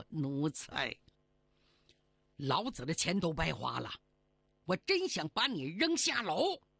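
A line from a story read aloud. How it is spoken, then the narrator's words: Furious, through gritted teeth. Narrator (Chinese): 胡半街面红耳赤，咬牙切齿说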